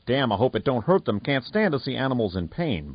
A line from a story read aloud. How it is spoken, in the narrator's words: Blade muttered